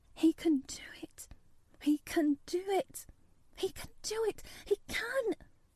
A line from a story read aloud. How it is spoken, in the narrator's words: She garbled over to herself under her breath as fast as ever she could